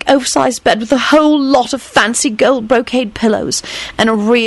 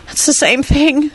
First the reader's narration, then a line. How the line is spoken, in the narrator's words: she gasped out